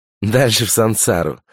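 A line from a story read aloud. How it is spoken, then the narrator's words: Laughing reply. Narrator (Russian): ответила Няша и опять засмеялась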